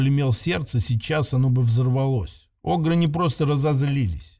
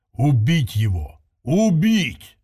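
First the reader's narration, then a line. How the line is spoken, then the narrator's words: Growl. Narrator (Russian): рыкнул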